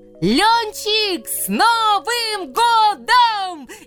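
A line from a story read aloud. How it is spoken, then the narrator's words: Children shouting loudly. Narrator (Russian): Изо всех сил закричали дети дяди Сережи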